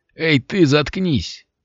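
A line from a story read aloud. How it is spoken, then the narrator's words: Grumbled nearby. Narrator (Russian): проворчал кто-то совсем близко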